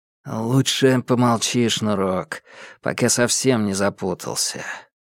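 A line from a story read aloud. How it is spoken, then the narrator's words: Weary sigh. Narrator (Russian): вздохнул Минхо, словно Томас его утомил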